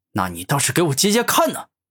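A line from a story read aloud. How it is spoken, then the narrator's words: Angry dragon. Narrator (Chinese): 生命巨龙愤怒的说道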